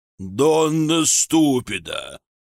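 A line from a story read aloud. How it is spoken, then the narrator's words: Groan. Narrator (Russian): простонал господин Костелано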